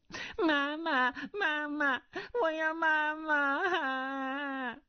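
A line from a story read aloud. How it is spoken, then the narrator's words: Child suddenly crying. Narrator (Chinese): 他手中抱着的小儿忽然哭道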